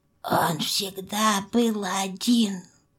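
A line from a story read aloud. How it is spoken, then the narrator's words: Hoarse rasp. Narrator (Russian): прохрипел Белогость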